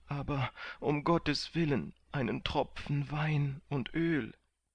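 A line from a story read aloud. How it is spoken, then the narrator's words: Groaning. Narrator (German): stöhnte Kandid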